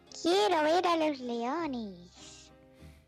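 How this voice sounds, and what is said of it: Elderly grandmother voice. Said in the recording (Spanish): “con voz de abuela”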